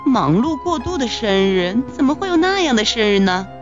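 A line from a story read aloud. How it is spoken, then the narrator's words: Sighing. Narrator (Chinese): 熊妈妈叹了口气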